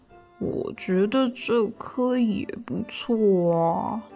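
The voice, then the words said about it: Quiet grumbling mutter. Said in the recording (Chinese): “小小声的嘟囔着”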